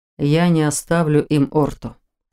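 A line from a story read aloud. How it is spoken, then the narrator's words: Calm reply. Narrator (Russian): спокойно ответил Норман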